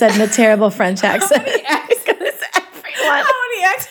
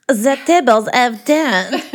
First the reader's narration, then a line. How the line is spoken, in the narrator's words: Malfoy said in a terrible French accent